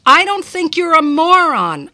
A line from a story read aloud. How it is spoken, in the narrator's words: I shouted